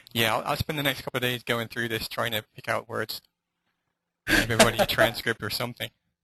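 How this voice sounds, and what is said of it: English / Irish accent. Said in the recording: “my crazy English / Irish accent.”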